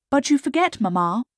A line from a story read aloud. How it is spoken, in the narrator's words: said Elizabeth